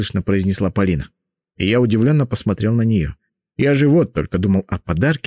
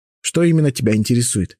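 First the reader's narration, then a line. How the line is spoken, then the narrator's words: Plain. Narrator (Russian): спросил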